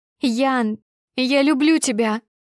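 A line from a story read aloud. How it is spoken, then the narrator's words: Loud sobbing. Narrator (Russian): Рыдаю в голос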